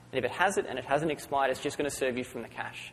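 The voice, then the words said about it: Monotone Australian accent. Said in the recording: “my strangely monotonic Australian accent”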